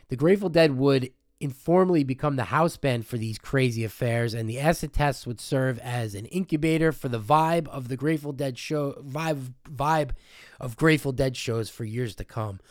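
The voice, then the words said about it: Sick, rough-sounding voice. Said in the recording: “I'm sick as a dog doing this, so I apologize for my voice and if I cough.”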